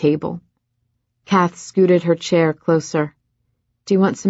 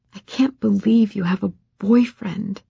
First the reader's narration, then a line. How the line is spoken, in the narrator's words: Ren whispered